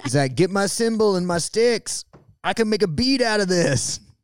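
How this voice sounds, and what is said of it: Imitates another person's voice, badly. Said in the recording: “It's a terrible impression. Of your husband”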